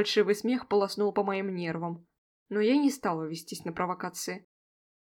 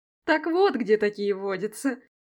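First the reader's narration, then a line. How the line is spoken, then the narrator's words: Remark then loud laughter. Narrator (Russian): заметил лохматый пепельный блондин по имени Фрол и расхохотался, впечатлившись своей же шуткой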